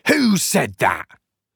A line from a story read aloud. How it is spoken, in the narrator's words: Haynes was laughing